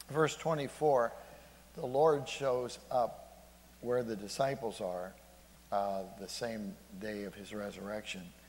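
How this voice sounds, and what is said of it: Voice giving out, strained. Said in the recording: “I don't know why my voice is going.”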